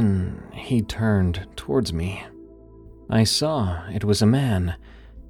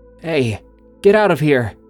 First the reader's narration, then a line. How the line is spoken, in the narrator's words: In my sleepy state, called out